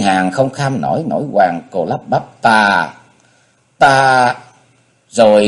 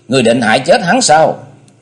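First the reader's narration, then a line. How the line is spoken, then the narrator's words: Angry question. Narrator (Vietnamese): Cô tức giận hỏi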